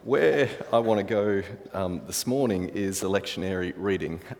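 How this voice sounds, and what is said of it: Noticeable non-local accent. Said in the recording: “I'm not sure whether it was the accent ... my accent”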